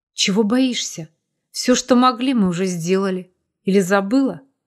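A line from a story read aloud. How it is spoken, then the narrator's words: Husky, hoarse. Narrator (Russian): Последние слова произнес хрипотцой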